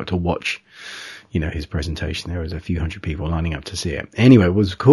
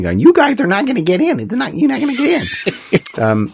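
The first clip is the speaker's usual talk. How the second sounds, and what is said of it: Imitates another person's voice. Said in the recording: “That's a pretty good Dick Smith impersonation.”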